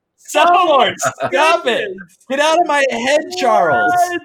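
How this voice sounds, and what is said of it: Yelling loudly. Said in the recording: “I'm sorry for yelling.”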